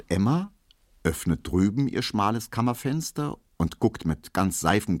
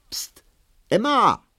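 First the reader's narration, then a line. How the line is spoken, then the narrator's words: Calling across the yard. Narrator (German): Hedwig in weißer Bluse öffnet ihr schmales Kammerfenster und ruft über den Hof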